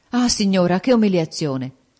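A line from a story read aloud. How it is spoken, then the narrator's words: Horrified exclamation. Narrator (Italian): esclamò Ferrante con una specie d'orrore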